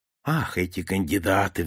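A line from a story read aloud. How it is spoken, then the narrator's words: Sigh. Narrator (Russian): вздохнул первый министр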